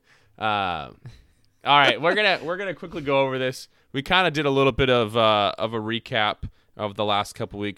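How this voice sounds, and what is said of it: Hoarse, strained voice. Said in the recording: “I've yelled enough. I'm losing my voice here”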